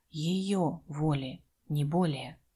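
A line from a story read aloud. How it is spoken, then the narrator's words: Very quiet but weighty. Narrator (Russian): проговорил совсем тихо, но достаточно весомо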